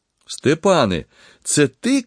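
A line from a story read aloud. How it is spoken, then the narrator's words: Joyful shout. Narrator (Ukrainian): крикнув радісно Микола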